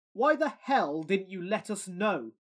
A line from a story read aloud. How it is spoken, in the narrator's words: yelled